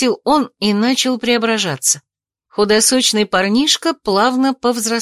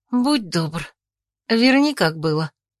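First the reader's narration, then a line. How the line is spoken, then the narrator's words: Calm request. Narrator (Russian): попросила спокойно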